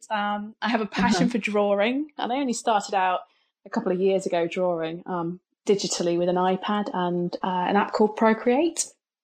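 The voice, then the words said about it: British accent. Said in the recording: “you have the British accent.”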